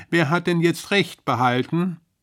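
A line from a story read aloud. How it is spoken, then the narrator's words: Calling from above. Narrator (German): rief die Rinde von oben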